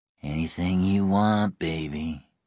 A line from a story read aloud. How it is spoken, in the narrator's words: Zone drawled